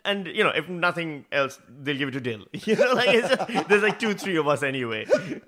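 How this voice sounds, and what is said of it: Immigrant accent. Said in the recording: “no matter how much of an immigrant I sound like ... I'm pretty sure one of those 90s comedians could do your accent ... I'm aware of my accent”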